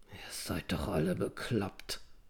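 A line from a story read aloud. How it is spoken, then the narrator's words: Mumbled. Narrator (German): nuschelte Anselm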